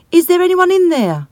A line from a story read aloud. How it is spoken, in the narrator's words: shouted